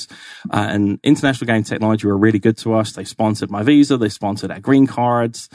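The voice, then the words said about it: British accent. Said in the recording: “A British accent opens a lot of doors in the US ... There's just something official about the accent ... some people call it pompous ... Official and proper”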